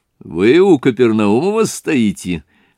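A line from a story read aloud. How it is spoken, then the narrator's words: Said laughing. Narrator (Russian): сказал он, смеясь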